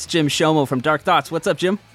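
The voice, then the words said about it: Serious, polished podcast-host voice. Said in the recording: “I like that you turn on your podcast voice. ... It's like a different... It sounds really good. ... I get really serious”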